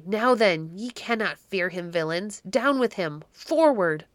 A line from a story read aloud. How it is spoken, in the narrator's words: cried Baron Henry fiercely